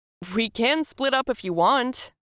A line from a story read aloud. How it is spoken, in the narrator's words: he shouted